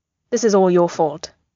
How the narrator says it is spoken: he says sternly

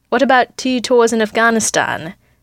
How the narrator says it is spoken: Natasha asks dryly

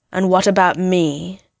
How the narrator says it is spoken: Ren asked, his tone murderous

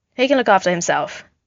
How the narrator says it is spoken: Steve said

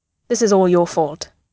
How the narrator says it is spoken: he says sternly

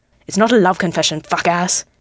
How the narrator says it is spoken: Bakugo hisses

